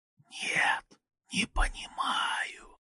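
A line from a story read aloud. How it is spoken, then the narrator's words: Whispered reply. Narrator (Russian): ответил шепот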